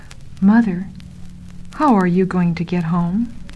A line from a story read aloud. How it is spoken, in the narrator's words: said softly